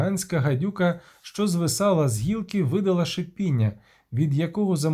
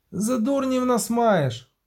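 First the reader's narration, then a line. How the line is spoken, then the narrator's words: Shouted. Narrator (Ukrainian): крикнув Кобін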